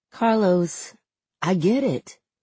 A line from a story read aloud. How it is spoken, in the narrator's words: he says, in a noticeably lower voice